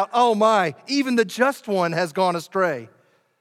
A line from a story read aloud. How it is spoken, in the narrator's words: they cried out